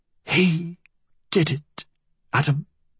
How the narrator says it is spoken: she whispered

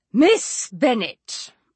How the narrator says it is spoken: replied her ladyship in an angry tone

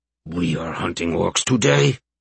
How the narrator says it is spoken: Tiny asked in his customary rumble

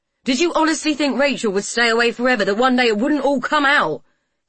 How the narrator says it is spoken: He yelled

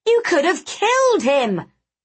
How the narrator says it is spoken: the red-haired boy cried

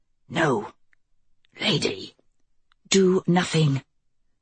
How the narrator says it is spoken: Kelsey grabbed his arm and whispered

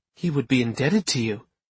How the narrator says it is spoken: Aunt Tatiana murmured

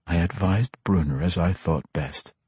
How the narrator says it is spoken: Drizzt said quietly

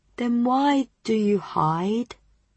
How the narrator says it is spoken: She asked sadly

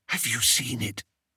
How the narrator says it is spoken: whispered Daisy

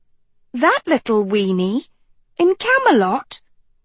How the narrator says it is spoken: Sophie squeaked

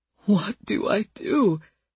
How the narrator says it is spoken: He asked it again and again, pleading

